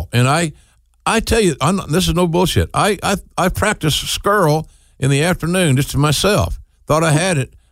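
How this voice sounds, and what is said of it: Oklahoma drawl. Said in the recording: “my Oklahoma drawl”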